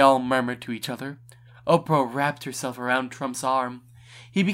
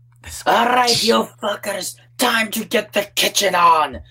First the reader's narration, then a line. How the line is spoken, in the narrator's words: he screeched